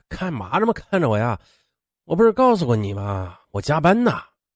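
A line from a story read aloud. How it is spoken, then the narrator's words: Feigned tired lie. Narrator (Chinese): 陶荣庆装着加班很累的样子 他顿感不妙，只好继续谎称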